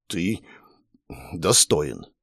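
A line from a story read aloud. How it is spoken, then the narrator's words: Barely forced out. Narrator (Russian): едва выдавила из себя Кисса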